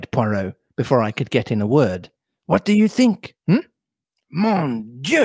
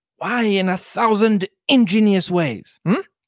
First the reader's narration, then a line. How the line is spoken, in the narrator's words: cried Poirot